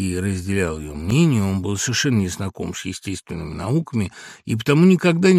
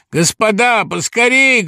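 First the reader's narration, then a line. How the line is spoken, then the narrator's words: Shouted. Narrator (Russian): крикнул им Самойленко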